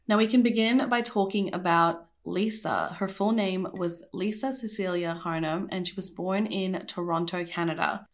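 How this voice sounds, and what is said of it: Sick, rough-sounding voice. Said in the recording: “my voice sounds kind of horrible, it's because I'm still kind of sick”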